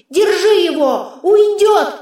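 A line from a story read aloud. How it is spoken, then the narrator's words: Yelling. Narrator (Russian): вопил меч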